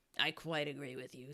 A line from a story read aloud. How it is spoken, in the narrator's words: said the Duchess